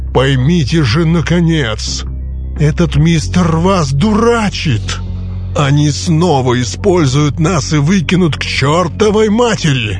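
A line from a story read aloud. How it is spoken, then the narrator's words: Menacing growl. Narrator (Russian): Сэм Своуп угрожающе зарычал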